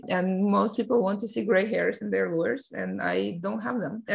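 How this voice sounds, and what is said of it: Speaks with an accent. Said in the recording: “I still have an accent.”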